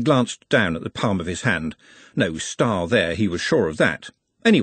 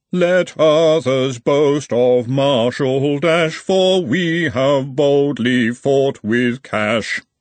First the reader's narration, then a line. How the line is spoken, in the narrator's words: roared the crowd at various pitches and speeds